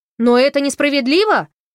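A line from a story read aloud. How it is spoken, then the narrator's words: Shouting. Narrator (Russian): крикнул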